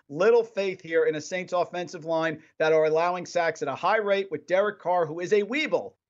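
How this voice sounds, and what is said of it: Tri-state area American accent. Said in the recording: “you got the tri-state accent”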